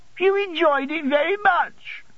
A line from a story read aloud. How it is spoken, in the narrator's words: sobbed Dora